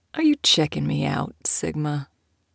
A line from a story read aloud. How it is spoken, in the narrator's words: he asked, lowering his voice to a soft purr